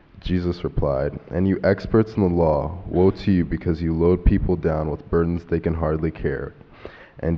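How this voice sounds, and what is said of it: Rich broadcast-style reading voice. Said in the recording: “What a radio voice.”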